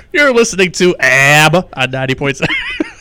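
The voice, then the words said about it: Exaggerated Rochester New York accent. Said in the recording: “we can go redneck with ABBA ... you can't tell we're from Western New York ... that's a Rochester A ... Rochester accent”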